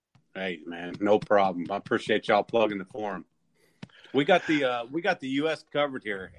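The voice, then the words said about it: Ohio Valley American accent. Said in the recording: “I'm in Ohio Valley. You can tell by my accent.”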